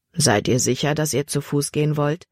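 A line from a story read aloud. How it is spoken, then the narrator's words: Plain. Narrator (German): fragte der Diakon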